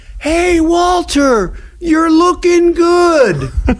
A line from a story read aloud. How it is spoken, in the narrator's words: yelled back